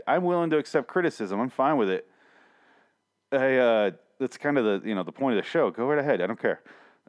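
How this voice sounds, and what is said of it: Strained, hoarse voice going out. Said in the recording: “my voice is going out. That's why I keep coughing and, like, clearing my throat”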